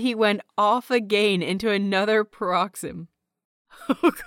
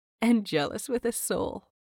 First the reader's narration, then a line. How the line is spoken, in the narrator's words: she said softly